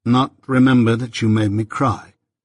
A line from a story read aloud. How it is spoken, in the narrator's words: said I